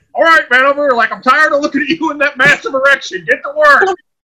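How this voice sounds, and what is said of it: Imitates a PE coach's voice. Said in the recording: “PE coach impression”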